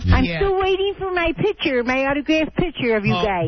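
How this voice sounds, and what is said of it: Buffalo, New York accent. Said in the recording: “you've lost your Buffalo accent. ... Oh, I still have it, you know.”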